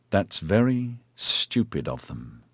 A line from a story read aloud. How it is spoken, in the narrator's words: he said slowly